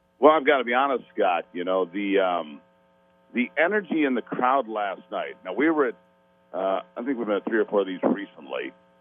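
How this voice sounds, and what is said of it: Hoarse, nearly lost voice. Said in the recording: “Lost my voice just trying to do some reporting over the noise of a crowd”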